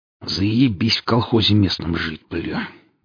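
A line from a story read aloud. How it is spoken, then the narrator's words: Grumbling mutter. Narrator (Russian): буркнул Валдис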